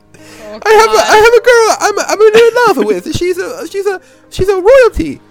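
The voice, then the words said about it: Partial Mario character voice. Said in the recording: “this is a Mario ... I can't do the whole voice.”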